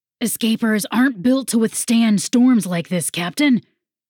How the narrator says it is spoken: Sawyers yelled as they ran across the wooden deck

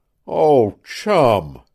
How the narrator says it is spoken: exclaimed the man with something akin to a groan

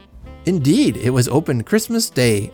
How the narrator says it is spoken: I exclaimed

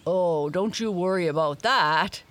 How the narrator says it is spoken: said Dawn with a laugh

